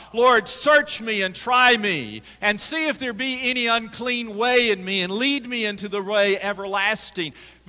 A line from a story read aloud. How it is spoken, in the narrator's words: David cried out in the psalm